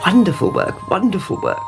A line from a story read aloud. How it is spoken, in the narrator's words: he muttered